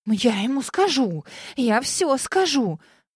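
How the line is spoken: Threatening hiss. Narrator (Russian): Многообещающе прошипела я

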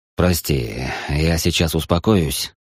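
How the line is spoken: Hoarse promise. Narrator (Russian): сипло пообещал он

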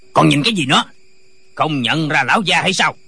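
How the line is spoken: Official shouting. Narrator (Vietnamese): Viên quan quát lên

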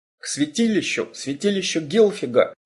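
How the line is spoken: Hoarse exclamation. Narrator (Russian): хрипло воскликнул Гарстанг

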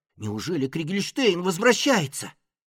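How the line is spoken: Frightened whisper. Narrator (Russian): испуганно прошептал Фред

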